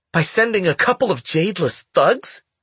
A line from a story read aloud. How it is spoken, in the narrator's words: She cried